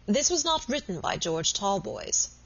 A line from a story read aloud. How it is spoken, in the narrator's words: he said